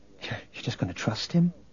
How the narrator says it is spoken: Leia whispered to Luke

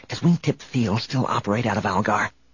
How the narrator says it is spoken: Han whispered

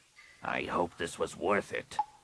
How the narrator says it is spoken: Rapung growled

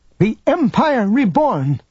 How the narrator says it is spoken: Defiantly, the proctor cried

